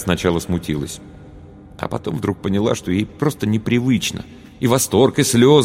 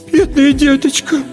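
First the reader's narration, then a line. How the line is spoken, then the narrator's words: Moved, babbling. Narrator (Russian): Растрогавшись еще больше, лепетала тетя Ира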